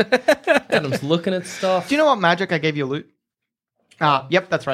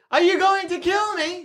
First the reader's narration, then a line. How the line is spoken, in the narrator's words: She yells